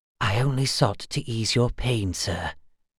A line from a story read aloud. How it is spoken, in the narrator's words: said Darren eventually, harshly whispering